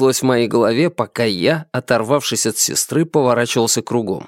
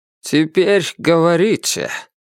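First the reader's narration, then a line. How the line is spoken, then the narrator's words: Grim. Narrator (Russian): мрачно произнес Чан Шунь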